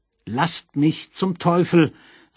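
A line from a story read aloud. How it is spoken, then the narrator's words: Call. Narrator (German): rief K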